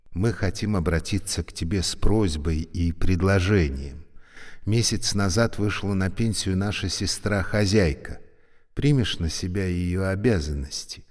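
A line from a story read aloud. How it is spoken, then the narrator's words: Soft. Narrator (Russian): Заведующая говорила мягко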